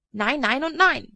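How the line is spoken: Bellow. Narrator (German): brüllte er

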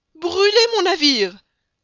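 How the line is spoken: Choked, barely articulate cry. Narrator (French): s'écria le capitaine Speedy, qui ne pouvait même plus prononcer les syllabes

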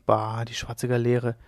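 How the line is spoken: Muttering. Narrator (German): murmelte Leone de la Rota

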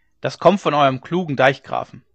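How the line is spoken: Villager calling out. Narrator (German): rief einer von den Gestleuten

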